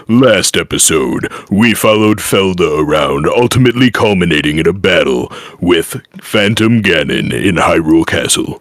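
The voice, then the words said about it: Unusually deep voice. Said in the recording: “my voice is so unusually deep”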